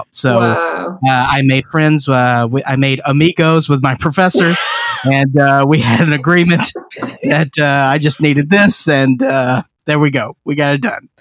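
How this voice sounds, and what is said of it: Southern American accent. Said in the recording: “I'm from the South, so I have purposefully not lost my accent”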